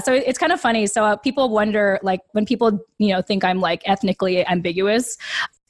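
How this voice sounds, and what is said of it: Clear American accent. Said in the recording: “have a very clear American accent”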